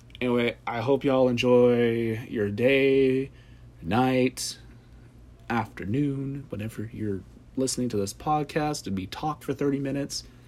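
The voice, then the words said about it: Tired, rough, tipsy-sounding voice. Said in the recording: “I'm told my voice is really lovely, but right now it is very much not, because I'm tired, I've had a lot to drink today”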